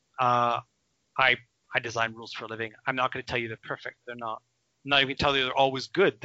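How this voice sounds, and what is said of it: Canadian accent, speaks quickly. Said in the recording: “I talk a great deal rather quickly with a strange Canadian accent”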